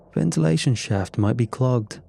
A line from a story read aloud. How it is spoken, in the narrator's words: I offered with a chuckle